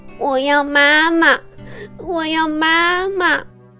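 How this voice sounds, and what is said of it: Crying, wailing child's voice. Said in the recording (Chinese): “哭得更凶了”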